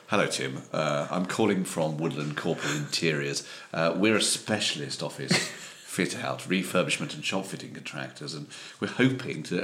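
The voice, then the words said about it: Slightly posh British accent. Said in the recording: “I think I could do slightly posher than myself”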